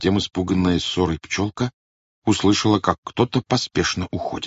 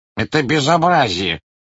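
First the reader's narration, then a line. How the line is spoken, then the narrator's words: Grumbling. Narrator (Russian): проворчал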